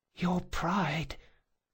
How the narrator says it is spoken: the boy whispered

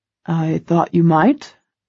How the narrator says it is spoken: I mutter dryly

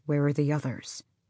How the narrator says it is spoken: said softly

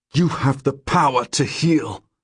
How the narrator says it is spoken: I say through gritted teeth

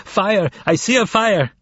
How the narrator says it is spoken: continued to scream

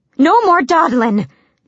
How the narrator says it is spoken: the servant woman cried

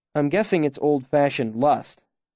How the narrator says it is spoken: I said in my roughest tones

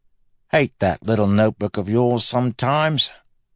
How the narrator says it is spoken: Marcy groaned

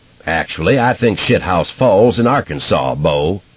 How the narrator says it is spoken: Buford Kissdribble said in his big hollow barrel voice

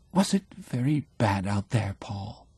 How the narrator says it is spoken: asks falteringly

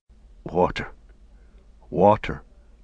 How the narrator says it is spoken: muttered Sam

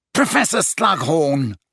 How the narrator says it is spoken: wheezed Filch, his jowls a-quiver and the maniacal light of mischief detection in his bulging eyes

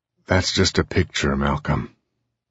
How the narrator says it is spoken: Case said wearily

